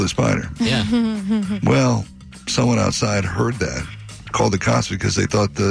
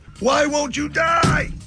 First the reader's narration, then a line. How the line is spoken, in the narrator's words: Freaked out so much he yelled